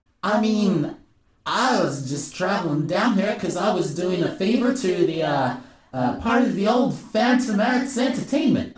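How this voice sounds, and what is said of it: Badly done put-on accent. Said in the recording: “I'm so bad at this accent, I'm probably going to drop it.”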